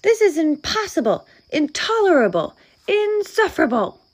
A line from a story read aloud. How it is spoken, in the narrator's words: cried Bear, shaking with anger and disbelief